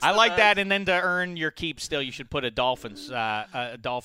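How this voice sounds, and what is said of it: Usual voice. Nothing is said of it.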